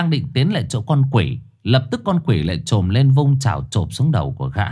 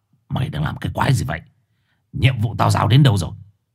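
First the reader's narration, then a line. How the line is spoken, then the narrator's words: Harsh, stern. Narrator (Vietnamese): Gã gằn giọng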